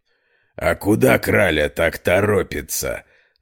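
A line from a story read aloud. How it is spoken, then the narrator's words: Rough hoarse distant voice. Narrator (Russian): раздался грубый хриплый голос со стороны темной подворотни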